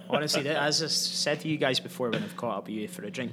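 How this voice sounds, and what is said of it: Scottish accent. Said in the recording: “this is my international accent ... hopefully everyone can understand and appreciate my accent”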